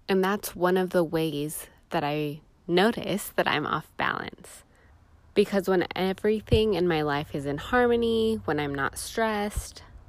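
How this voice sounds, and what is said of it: Stuffy, congested voice. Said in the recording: “you can hear that I sound a little bit stuffy”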